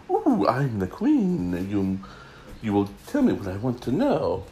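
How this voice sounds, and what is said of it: Put-on accent imitating the Queen. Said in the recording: “I don't know what accent that was. I am so sorry you had to hear that.”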